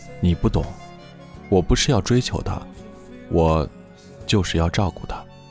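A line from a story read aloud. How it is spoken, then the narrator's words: Sighing. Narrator (Chinese): 于言叹口气说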